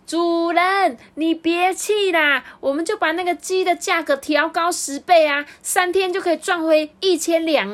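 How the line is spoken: Loud roar. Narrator (Chinese): 长工怕他听不见，就大声的吼说

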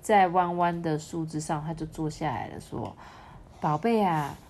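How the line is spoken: Smiling. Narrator (Chinese): 妈妈笑笑说

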